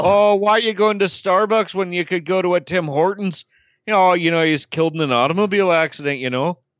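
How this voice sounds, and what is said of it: Put-on Irish drifting to Scottish accent. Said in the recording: “You're doing like an Irish accent. ... I got to a Scottish accent by the end”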